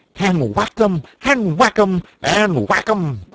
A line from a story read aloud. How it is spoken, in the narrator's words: cried the toad in ecstasy